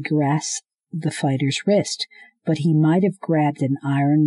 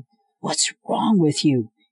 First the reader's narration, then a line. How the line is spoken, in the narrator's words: he choked out